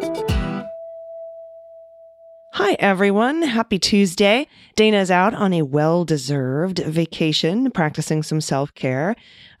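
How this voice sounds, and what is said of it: Raspy, slightly hoarse voice. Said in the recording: “Pardon my voice. It is a little raspy. ... I've been hooping and hollering, and so my voice is a little bit raspy”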